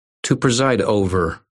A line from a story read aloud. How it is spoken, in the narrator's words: I said, and snorted